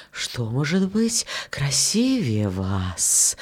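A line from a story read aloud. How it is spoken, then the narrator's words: Wind whispering. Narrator (Russian): ветер … шептал розам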